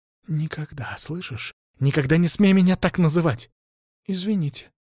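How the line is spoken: Mutter. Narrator (Russian): пробормотал я

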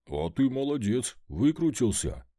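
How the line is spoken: Dog's exclamation. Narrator (Russian): воскликнул пес

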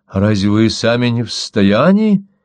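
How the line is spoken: Calm. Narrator (Russian): теперь уже спокойно промолвил Дермот

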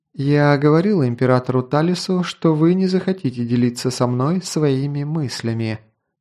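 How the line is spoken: Sigh. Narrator (Russian): вздохнула Скади

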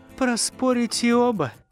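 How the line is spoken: Laughing. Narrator (Russian): засмеялась волшебница

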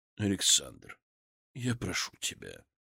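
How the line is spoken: Gentle grandfather, not angry. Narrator (Russian): мягко сказал дед, ничуть не рассердившись

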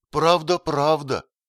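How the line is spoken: Sudden exclamation. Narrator (Russian): воскликнула, точно вдруг проснувшись, Христлиба

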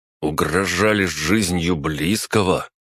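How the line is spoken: Through gritted teeth. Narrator (Russian): процедил Василий

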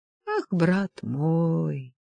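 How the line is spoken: Drawn-out. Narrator (Russian): протянул он

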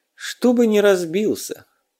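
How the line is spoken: Tired explanation. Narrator (Russian): устало пояснил он

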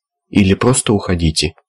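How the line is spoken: Quiet. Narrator (Russian): тихо закончил Аспирин

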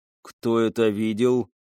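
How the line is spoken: Through gritted teeth. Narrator (Russian): процедил Лио

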